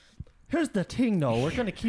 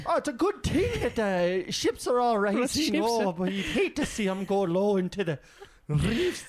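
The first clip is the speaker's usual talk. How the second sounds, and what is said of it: Put-on Irish accent, not very good. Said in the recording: “Do you see here that trill? ... I don't really know how to do an Irish accent.”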